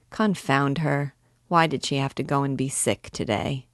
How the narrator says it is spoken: he was mumbling

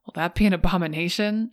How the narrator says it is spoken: laughed to myself

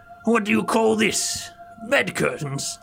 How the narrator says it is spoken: returned, the woman, laughing

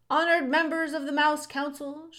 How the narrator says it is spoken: shouted Furlough

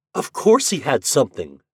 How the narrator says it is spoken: she exclaimed

